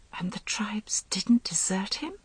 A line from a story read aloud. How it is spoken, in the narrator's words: She whispered